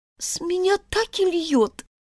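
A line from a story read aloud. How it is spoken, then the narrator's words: Sad. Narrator (Russian): ответила Алиса печально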